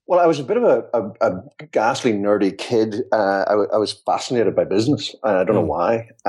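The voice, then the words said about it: British accent. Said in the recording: “You can probably gather from my accent, I'm not from these parts. I'm originally from the United Kingdom... my accent has decided not to relocate”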